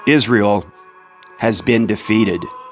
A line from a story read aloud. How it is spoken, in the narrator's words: the messenger replied